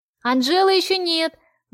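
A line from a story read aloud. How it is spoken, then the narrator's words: Shouted from far away. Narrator (Russian): выкрикнул кто-то из дальних рядов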